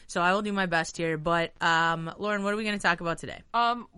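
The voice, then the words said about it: Hoarse, nearly lost voice. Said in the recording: “I have, like, a little bit of a voice thing happening ... This is what I sound like today. ... You sound like a boiler going through. ... Is the best it sounded. Yesterday it was almost completely gone.”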